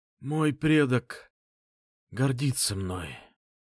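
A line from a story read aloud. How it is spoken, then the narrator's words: Dying man's rasp. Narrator (Russian): прохрипел умирающий Влад Громов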